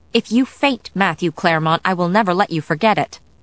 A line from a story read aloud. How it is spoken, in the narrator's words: Sarah said testily